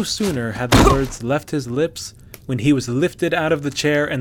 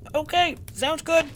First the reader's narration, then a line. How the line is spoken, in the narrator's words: the hunter squeaked